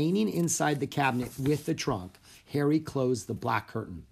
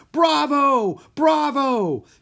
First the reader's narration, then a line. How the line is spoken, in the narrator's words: Jack and Annie clapped and shouted with them